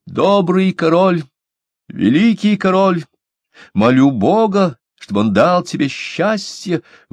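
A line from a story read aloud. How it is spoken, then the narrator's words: Loud cry. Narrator (Russian): крикнула громким голосом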